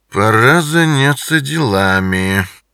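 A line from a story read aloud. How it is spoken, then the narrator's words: Purring voice. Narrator (Russian): промурлыкал он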